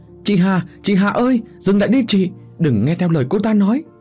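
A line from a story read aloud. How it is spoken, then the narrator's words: Loud shout while running. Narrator (Vietnamese): Vừa chạy tôi vừa thét to để cho bố mẹ nghe rõ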